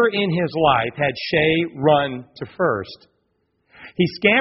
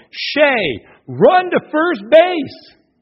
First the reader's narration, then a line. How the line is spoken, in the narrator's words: Everyone started yelling